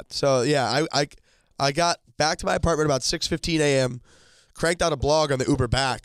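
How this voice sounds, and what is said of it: Hoarse, worn-out voice. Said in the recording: “My voice is shot.”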